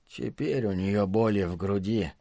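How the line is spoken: Quiet. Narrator (Russian): сказал Джуд тихо

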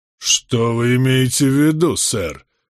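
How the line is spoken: Menacing raised voice. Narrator (Russian): грозно возвысил голос Вайт Эрингтон

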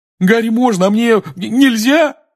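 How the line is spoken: Wailing. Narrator (Russian): взвыл Рон

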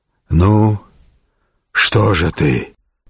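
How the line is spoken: Hoarse wheeze. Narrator (Russian): прохрипел рыцарь

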